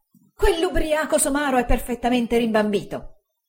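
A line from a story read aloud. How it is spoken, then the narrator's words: Exclaiming. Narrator (Italian): esclamò Uriah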